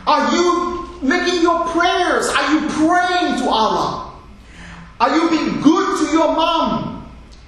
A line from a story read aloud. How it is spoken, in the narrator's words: the dad was shouting into the phone